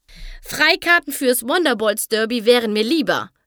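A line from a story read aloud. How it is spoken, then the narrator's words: Called out. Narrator (German): rief Rainbow Dash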